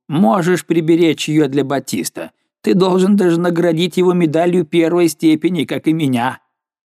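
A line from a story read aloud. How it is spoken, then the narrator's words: Shouting. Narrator (Russian): крикнул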